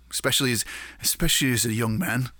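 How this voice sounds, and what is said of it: Fake British accent. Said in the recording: “I just did a fake British accent there”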